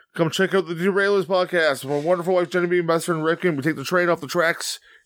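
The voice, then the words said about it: Talking very fast. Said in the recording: “I'm talking really fast right now because that's what the train does. It goes fast.”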